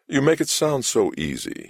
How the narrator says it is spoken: he said in a careless voice

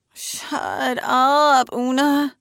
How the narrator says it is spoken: Trevor says, mournfully

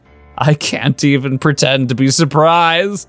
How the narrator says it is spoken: he chuckled

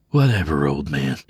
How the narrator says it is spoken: grumbled under his breath, a desperate attempt to maintain his macho persona

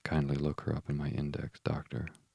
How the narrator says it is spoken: murmured Holmes

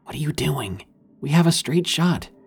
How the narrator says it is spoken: He whispered

